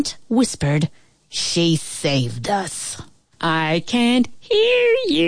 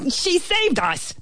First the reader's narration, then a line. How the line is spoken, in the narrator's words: the ant bellowed